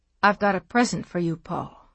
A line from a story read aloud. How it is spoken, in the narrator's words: she said softly